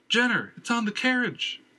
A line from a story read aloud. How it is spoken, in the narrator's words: Erica screamed from inside